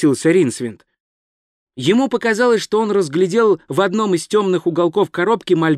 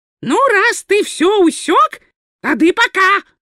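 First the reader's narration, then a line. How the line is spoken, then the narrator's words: Snapping retort. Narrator (Russian): огрызнулся уродец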